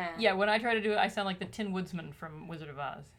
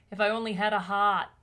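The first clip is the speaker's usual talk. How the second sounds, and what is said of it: Put-on thick Boston accent. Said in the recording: “He's got the thickest Boston accent ... My go-to Boston accent”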